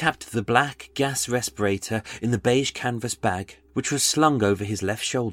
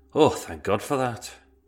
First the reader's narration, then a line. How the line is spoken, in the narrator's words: Cummings let out an audible sigh and uttered